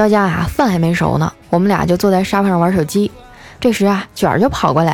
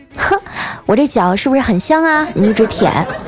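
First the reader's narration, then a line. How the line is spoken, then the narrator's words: Laughing, teasing. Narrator (Chinese): 这丸子就一边笑啊，一边低头对卷儿就说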